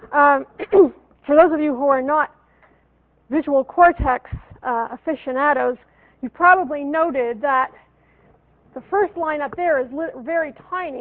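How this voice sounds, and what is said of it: Hoarse, strained voice. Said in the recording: “I don't know why I'm losing my voice,”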